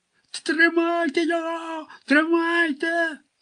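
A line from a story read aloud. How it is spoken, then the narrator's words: Continued shrieking. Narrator (Ukrainian): продовжував верещати Охрім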